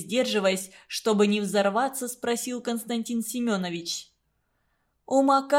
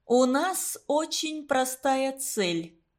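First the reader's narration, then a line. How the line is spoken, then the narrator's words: Slow, weighty after pause. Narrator (Russian): немного помолчав и медленно для большего значения начала Марина Федотовна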